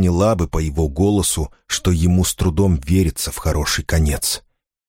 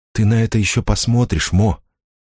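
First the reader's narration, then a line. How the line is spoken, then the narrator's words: Whispered. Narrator (Russian): прошептала она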